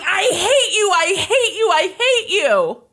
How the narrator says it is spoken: Lindsay, the 16-year-old daughter, runs over to her father and she starts hitting him with her purse and screaming

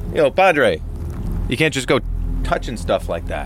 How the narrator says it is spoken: I yelled something like

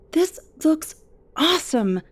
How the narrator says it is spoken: I cried

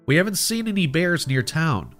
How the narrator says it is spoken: I replied

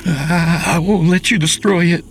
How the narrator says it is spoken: Charles cried out

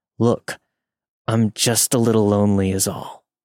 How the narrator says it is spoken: Through gritted teeth, trying to mask his frustration, he said

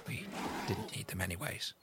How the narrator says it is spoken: Caesar says, but quietly

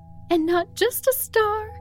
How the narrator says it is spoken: squealed Katrina

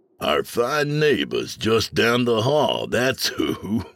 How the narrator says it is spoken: Mikey chuckled

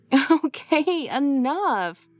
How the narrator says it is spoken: laughed Lacey

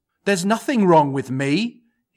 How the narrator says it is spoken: he exclaimed

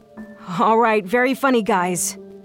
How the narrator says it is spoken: I called out

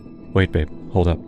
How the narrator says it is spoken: I whispered

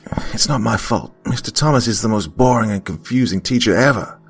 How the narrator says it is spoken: Alex muttered under his breath

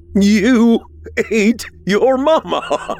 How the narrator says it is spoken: William shouted

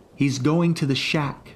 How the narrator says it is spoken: Brenda, my Uncle Brad's other daughter, shouted

